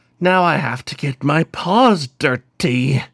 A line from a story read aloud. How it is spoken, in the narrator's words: Hashmed growled, fighting to put Shirin in a chokehold